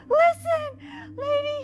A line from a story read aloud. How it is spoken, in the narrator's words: said in a high voice